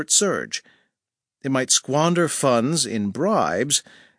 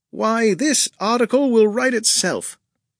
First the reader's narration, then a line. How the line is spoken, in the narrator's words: he said cheerfully